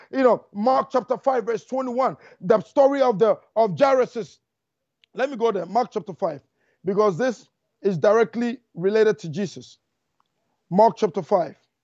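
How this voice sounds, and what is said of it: Speaking very fast. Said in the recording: “I'm talking too fast. I, I, I don't know why I'm talking so fast.”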